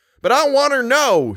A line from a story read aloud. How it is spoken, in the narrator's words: shrieked the guide